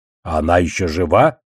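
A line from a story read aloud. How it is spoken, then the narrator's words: Snorting. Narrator (Russian): хмыкнул Одноглазый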